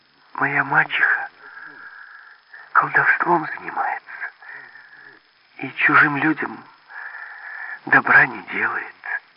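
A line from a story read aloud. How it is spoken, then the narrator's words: Girl sighing. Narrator (Russian): Девушка вздохнула и говорит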